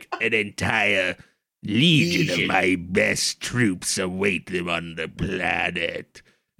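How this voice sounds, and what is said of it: Impression of the Star Wars Emperor. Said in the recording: “Good impression”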